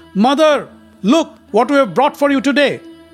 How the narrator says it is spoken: excited Arjuna called out

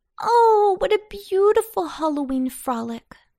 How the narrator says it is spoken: sighed Babette

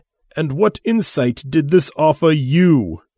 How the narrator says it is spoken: he asked, with a tightly controlled voice

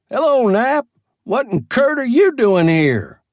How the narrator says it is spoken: somebody yells

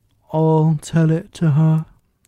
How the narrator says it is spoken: said the Mock Turtle in a deep hollow tone

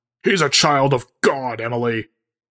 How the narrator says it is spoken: Barnabas shouts before forcing his voice into an inside tone

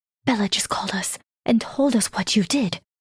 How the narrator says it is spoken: Aunt Josephine whispered

